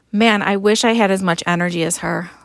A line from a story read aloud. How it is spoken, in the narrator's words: Lily said